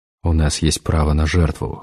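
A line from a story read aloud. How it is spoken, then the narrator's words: Cold. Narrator (Russian): холодно сказал Эдгар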